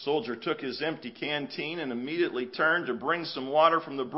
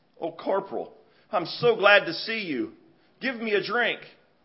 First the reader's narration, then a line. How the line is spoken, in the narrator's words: As soon as the boy saw his rescuer, he exclaimed